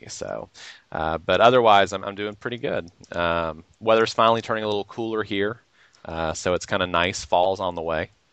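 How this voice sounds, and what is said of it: Hoarse, raspy voice. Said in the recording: “I'm a little hoarse because ... your voice gets a little raspy”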